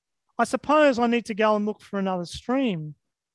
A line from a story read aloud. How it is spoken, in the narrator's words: she said